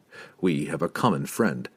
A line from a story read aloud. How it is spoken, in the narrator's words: Drizzt said softly to Durdamont